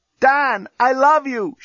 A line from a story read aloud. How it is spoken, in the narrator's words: shouted Lucy from her cell